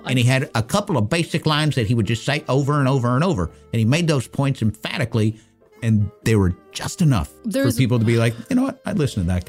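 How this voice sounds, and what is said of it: Fast southern accent with slight lisp. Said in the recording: “He spoke like this. ... He spoke really quick with a southern accent, and he had a little bit of a lisp in there like this. This is basically a dead-on, spot-on Ross Perot imitation.”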